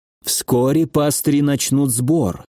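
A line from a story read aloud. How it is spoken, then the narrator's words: Quiet dragon. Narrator (Russian): тихо сказал дракон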